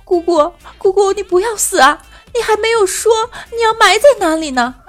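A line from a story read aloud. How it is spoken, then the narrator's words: Child crying. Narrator (Chinese): 小侄子哭着说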